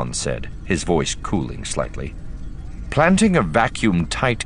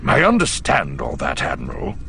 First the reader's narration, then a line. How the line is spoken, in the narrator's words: growled